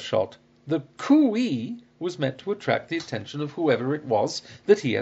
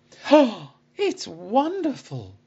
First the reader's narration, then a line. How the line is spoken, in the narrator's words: I exclaimed